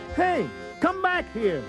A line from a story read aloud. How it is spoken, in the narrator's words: Ralph yelled